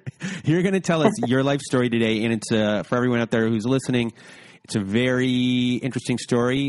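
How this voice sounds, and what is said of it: Usual voice. Nothing is said of it.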